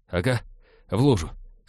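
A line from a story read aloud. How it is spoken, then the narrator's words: Embarrassed mutter. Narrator (Russian): смущенно пробормотал Натан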